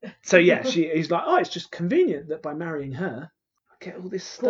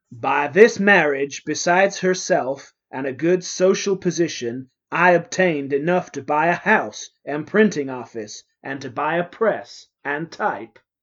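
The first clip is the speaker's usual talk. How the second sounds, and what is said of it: Reads in a put-on accent. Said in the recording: “That's definitely not what his accent was. I'm so sorry.”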